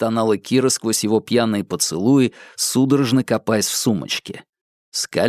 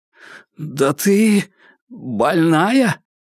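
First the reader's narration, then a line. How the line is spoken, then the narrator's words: Strained, forced out. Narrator (Russian): выдавил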